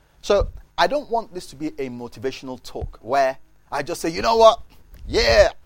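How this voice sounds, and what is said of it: Loud, strained shouting voice. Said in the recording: “my voice is different. I think I'm shouting too much.”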